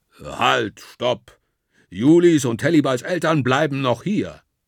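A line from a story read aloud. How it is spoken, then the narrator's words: Thundering. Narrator (German): donnert der Wandelwurz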